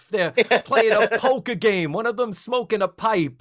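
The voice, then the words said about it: Put-on accent. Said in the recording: “I don't know why I'm doing this accent.”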